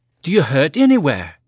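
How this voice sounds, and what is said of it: Lilting Irish accent. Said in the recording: “in her lilting Irish accent”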